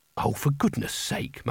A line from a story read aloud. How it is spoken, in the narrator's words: muttered Kanina